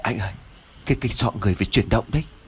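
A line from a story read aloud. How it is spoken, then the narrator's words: Frightened stammering. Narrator (Vietnamese): Lễ run rẩy ấp úng nói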